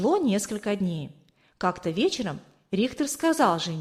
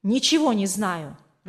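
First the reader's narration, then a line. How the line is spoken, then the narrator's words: Irritated reply. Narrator (Russian): раздраженно ответил тот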